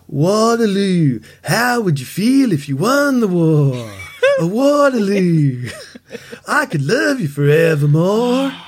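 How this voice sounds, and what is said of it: Sings imitating a singer's voice. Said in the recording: “you can sing anything in the voice of Bob ... let me try and do my best impersonation of Bob”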